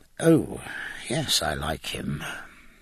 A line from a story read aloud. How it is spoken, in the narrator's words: he said hoarsely